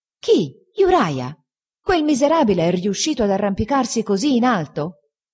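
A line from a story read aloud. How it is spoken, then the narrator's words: Indignant exclamation. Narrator (Italian): esclamai indignato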